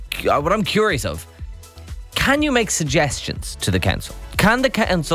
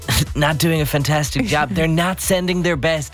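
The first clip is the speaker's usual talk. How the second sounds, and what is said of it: Donald Trump impression. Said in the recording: “that in your Trump voice”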